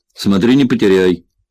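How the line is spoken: Stern boss. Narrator (Russian): строго произнес босс

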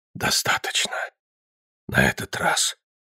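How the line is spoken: Exhaled words. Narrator (Russian): выдохнул

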